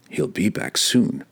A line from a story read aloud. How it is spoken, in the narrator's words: the drow muttered to himself